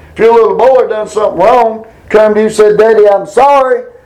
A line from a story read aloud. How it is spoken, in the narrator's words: He said